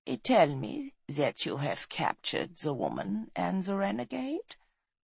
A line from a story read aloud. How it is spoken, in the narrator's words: he said softly, his voice sibilant and chilling